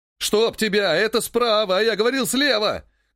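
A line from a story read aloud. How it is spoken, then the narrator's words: Shouting. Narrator (Russian): кричал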